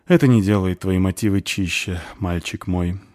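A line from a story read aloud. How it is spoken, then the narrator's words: Dwarf woman sighing. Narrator (Russian): вздохнула Дварфиха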